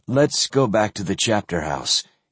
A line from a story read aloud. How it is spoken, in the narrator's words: he suggested gently